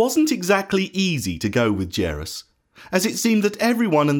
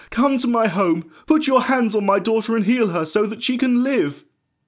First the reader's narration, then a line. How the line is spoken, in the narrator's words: he begged Jesus